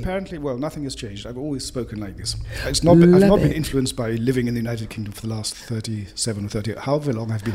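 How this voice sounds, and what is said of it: Strong English accent. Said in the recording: “you've got this strongest English accent”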